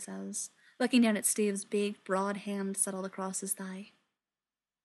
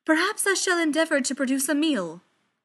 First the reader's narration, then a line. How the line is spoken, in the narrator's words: he says happily